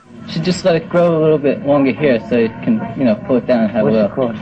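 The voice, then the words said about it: Manhattan accent. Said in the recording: “The cowboys with a Manhattan accent.”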